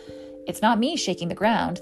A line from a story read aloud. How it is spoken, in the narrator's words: the giant booms